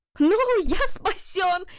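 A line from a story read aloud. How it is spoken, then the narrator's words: Shout. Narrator (Russian): закричал Джарвис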